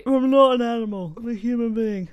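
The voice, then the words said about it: Poor impression of a film character. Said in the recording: “That was the worst impression I've literally ever done.”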